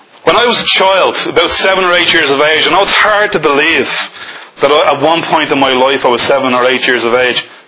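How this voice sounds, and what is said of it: Dublin Irish accent. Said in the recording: “You can probably tell that I originate from Dublin... You wouldn't know that by my accent”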